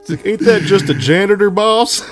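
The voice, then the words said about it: Imitates another person's voice. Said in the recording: “It's a pretty good impression.”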